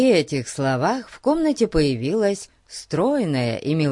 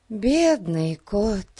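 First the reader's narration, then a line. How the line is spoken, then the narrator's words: Sigh. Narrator (Russian): вздохнула миссис Томас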